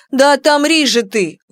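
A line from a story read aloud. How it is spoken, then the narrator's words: Agitated shout. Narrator (Russian): выкрикнула взволнованная Нара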